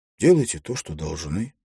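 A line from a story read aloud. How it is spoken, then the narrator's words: Plain. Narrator (Russian): сказал Олег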